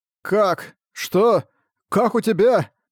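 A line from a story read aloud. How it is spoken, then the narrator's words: Surprised stammering. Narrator (Russian): от удивления, и он не мог перестать заикаться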